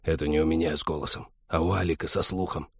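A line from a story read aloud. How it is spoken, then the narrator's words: Very quiet hiss. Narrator (Russian): прошипел Вадим таким пианиссимо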